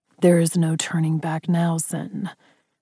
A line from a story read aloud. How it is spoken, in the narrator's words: he said thickly, his voice leveled with gravel in his tone